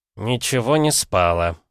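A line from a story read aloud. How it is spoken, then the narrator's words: Grumbled. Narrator (Russian): буркнул Виноград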